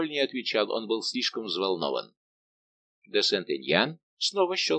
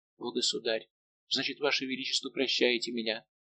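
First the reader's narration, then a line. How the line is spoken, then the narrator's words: Faint whisper. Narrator (Russian): прошептала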